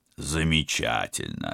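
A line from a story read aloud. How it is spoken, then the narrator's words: Absent-minded mumble. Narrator (Russian): рассеянно пробормотал Станислав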